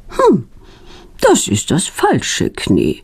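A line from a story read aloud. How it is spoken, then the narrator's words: Calm. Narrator (German): sagt ruhig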